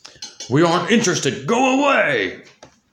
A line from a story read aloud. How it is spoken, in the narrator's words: growled